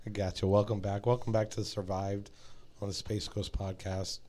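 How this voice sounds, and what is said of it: Hoarse, worn-out voice. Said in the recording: “losing my voice ... you probably wore your voice out”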